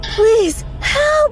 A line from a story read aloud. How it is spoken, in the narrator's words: someone cried out